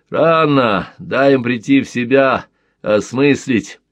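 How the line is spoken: Laughing. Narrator (Russian): рассмеялся Глушко

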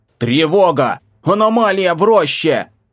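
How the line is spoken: Full-lung yell. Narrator (Russian): Заорал я во всю мощь своих легких

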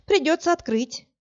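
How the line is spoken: Sighing. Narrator (Russian): вздохнула

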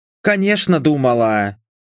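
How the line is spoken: Scoffing snort. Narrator (Russian): фыркнула Энджи

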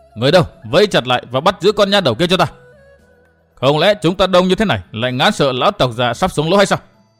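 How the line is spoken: Shouted. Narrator (Vietnamese): Miệng thì hắn quát như vậy

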